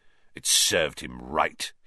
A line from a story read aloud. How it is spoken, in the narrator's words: he sneered